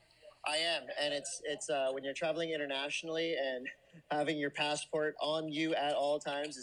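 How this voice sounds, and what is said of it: Usual voice. Nothing is said of it.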